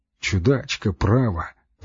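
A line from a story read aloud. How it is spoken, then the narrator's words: Mutter. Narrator (Russian): бормочу я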